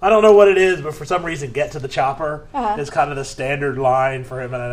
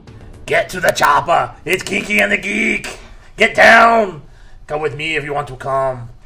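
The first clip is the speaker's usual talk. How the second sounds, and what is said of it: Bad Arnold Schwarzenegger impression. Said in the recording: “It's just a bad Arnold Schwarzenegger ... impersonation ... it was a really bad Arnold Schwarzenegger”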